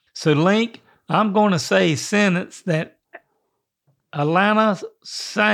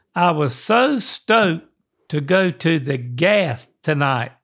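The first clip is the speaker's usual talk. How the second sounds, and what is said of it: Attempted Australian accent. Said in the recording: “my best Australian accent ... Is this your Aussie accent?”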